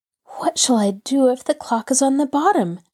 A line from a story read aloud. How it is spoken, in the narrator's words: Nancy groaned